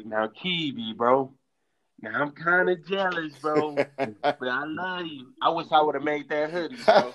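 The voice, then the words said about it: Imitates another person's voice. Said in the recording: “that's exactly how he sounds, bro. You do a good impersonation”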